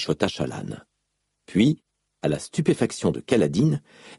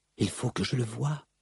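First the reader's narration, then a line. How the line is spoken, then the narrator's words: Murmur. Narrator (French): lui murmura Shallan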